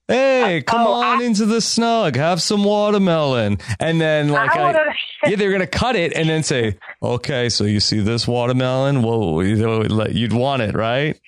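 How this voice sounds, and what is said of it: Good Boston Rob impression. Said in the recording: “Your Boston Rob accent is really good.”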